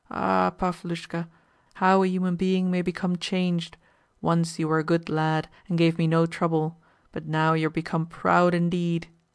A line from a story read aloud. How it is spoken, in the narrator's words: he murmured feebly, and added with a profound sigh